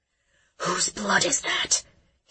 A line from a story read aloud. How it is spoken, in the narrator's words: he uttered in a strained whisper